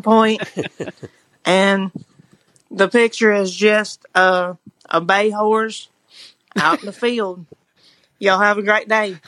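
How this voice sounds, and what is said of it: Natural Southern US accent. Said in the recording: “that was a great accent ... her southern just, accent's so good ... Sounds like it comes right naturally”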